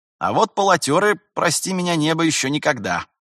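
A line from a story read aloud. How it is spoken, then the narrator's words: With a snort. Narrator (Russian): Терентьев хмыкнул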